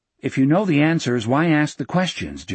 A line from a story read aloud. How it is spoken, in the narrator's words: Jack asked